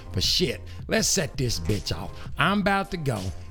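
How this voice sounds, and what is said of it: Old KC persona voice. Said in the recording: “my old KC voice”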